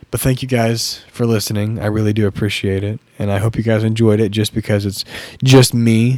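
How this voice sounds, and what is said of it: Raspy, fading voice. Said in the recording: “my voice is getting raspy and I'm losing it as I'm speaking”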